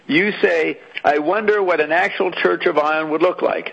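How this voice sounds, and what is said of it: Canadian accent. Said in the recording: “Your Canadian accent's really messing with me here.”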